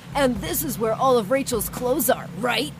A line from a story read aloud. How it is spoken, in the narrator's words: Dad and my brother laughed